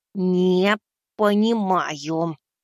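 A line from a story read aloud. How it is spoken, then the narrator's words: Said through gritted teeth. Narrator (Russian): процедил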